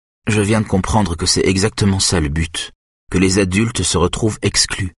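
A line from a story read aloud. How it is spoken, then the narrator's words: Plain. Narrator (French): dit-elle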